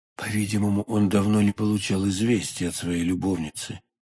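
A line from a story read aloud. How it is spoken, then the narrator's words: Whispered. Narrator (Russian): прошептал Атос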